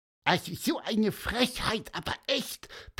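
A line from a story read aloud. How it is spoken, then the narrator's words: Squeaky voice. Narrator (German): piepste wieder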